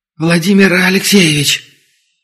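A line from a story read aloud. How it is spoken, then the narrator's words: Whispered call from behind. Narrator (Russian): Шепотом окликнули сзади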